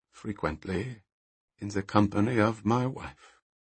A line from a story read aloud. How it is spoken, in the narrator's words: paused for a moment, adding quietly